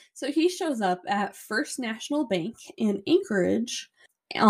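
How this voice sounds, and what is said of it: Usual voice. Nothing is said of it.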